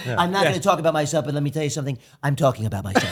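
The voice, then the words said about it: Poor imitation of a politician. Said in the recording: “my horrible impression of the former president”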